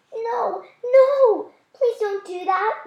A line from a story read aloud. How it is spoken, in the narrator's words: one woman cried